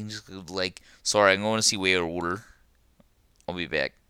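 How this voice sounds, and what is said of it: Put-on Philadelphia accent. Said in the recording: “talking in the Philadelphia accent like that”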